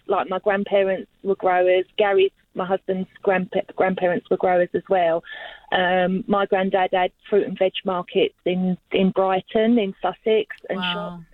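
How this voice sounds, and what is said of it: London English accent. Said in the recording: “as you probably get from my accent, I'm originally from London”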